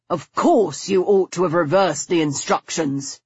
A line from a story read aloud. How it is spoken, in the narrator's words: he grumbled